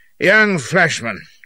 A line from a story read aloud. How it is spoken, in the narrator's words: growls